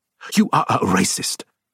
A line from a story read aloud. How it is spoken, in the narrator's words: Terry snapped